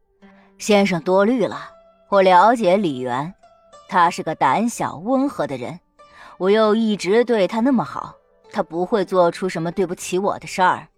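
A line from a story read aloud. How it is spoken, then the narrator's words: Laughing, confident. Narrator (Chinese): 春申君听了，哈哈一笑 说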